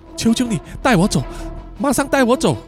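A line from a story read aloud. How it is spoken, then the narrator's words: Pleading. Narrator (Chinese): Peggy 啊就哀求他说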